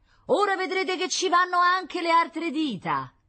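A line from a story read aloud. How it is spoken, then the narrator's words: Screamed. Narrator (Italian): La sora Cecilia gettò un urlo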